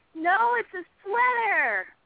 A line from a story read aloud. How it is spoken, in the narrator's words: she yelled back